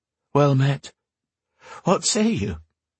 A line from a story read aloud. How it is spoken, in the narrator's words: She couldn't stop the quaver from creeping into her voice